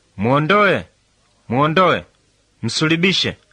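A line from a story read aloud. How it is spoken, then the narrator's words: Crowd shouting. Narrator (Swahili): Wao wakapaza sauti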